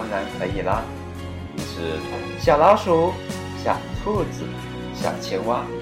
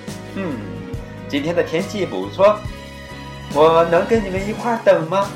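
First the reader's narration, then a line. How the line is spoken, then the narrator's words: Little frog, laughing question. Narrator (Chinese): 小青蛙笑着问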